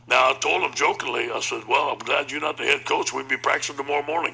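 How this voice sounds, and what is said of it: Cajun accent. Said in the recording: “He also doesn't have a Southern accent. He's a Cajun accent.”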